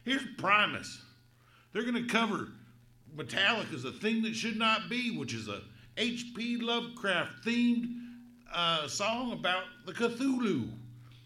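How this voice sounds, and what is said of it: Southern American accent. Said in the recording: “do you dream in a southern accent like you're talking? ... I'm from the South”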